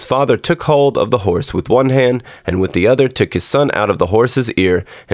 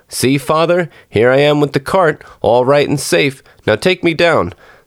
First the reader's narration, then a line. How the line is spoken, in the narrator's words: Tom Thumb cried out